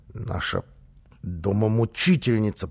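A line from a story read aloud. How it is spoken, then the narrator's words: Child hissing. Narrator (Russian): прошипел малыш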